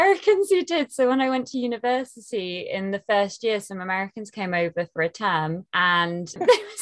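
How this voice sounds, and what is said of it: Usual voice. Nothing is said of it.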